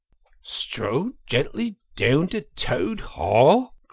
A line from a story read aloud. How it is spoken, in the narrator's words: cried the rat, greatly excited